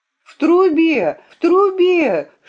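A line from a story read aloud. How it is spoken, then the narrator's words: Full-force scream. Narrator (Russian): силой закричала я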